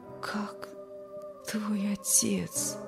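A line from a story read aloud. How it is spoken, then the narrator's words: Barely audible question. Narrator (Russian): спросил еле слышно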